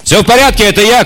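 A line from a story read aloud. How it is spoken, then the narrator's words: Shout. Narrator (Russian): крикнул Кисима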